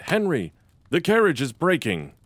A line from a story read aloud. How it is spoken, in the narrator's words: he cried